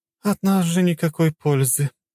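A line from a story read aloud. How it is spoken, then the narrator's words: Sigh. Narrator (Russian): вздохнула богиня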